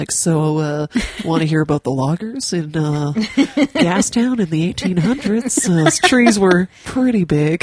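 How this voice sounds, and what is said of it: Calm public-radio narrator voice. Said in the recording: “that voice, that NPR voice”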